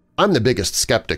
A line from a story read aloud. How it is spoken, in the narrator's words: she said